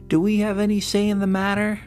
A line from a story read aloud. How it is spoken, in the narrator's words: Pearl called out from under the blanket